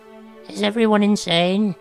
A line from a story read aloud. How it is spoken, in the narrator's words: Groverbs croaked